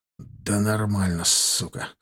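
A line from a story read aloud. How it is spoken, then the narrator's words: Exhaled words. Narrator (Russian): Выдохнул он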